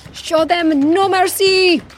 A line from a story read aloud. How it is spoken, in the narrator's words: he shouted